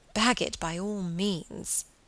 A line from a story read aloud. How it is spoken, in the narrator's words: murmured Margaret